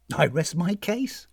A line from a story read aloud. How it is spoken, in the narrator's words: said Tanisan